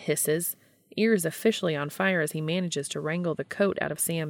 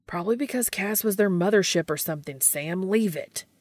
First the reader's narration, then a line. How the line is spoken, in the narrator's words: Dean barks